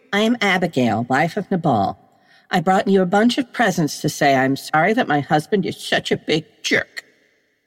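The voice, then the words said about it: Performs a girl's voice. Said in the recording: “you do the best girl voice”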